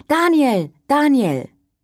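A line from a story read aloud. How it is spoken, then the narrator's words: Repeated loud calling. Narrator (German): Immer wieder rief laut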